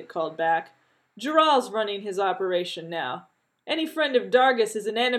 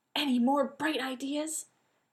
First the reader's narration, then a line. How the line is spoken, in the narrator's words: Jeannie whispered furiously